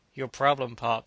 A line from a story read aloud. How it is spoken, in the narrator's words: said the officer beside him dryly